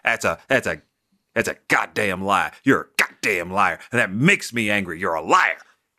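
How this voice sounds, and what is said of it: Yelling angrily. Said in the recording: “Why are you yelling at me?”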